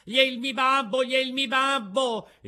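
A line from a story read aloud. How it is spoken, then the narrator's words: Piercing shriek. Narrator (Italian): Pinocchio cacciò un urlo acutissimo gridando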